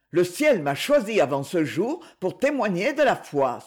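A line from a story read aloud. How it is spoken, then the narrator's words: Exclaimed. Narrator (French): s'écria-t-il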